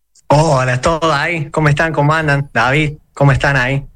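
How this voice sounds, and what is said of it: Córdoba Argentine Spanish accent. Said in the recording (Spanish): “Me encanta la tonada. Bien cordobés.”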